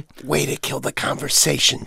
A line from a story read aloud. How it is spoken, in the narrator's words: Jonathan whispered